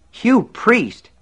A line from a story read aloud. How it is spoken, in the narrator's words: Alan exclaimed